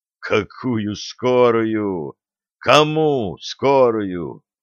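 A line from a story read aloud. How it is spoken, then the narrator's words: Muffled, hollow question. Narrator (Russian): глухо спрашивает Вишневецкий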